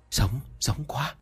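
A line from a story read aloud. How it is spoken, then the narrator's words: Workers whispering. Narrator (Vietnamese): mấy người công nhân chỉ trò thì thầm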